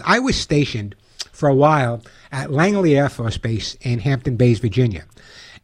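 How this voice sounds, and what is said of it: Long Island accent. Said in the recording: “you never know by my accent, I'm from Long Island”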